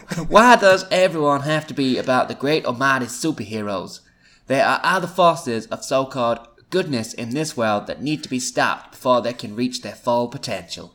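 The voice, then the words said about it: Camp, put-on Texan American accent. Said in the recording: “camp-sounding Texan ... I don't know what that accent is. It's sort of American, I think ... my American's getting worse”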